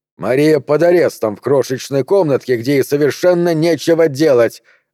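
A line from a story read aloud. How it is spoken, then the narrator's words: Barked. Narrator (Russian): рявкнул Вольфганг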